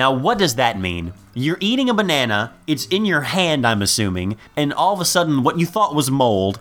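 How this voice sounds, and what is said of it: Usual voice. Nothing is said of it.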